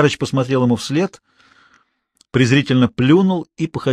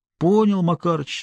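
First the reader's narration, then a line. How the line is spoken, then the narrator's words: Resigned. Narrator (Russian): смирился собеседник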